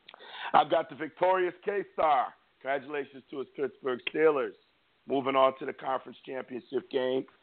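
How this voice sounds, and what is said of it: Strained voice worn from screaming. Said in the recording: “excuse my voice. It's still recovering from screaming at the TV last night.”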